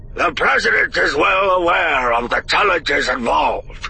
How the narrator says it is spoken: Akbar said, his voice even more gravelly than usual

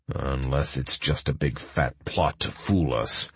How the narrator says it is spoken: Magni muttered low

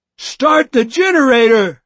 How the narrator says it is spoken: I yelled at them

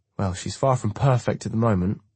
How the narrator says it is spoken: I chuckle

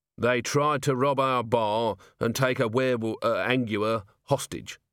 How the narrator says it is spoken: said Vimes

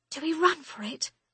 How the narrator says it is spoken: I whisper to Joanna

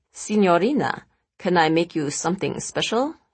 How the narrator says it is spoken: He asked in an almost comically seductive accent

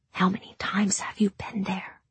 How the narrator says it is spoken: She asked in a whisper

